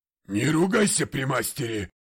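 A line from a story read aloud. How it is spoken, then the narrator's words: Old man barking. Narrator (Russian): рявкнул старик Джордж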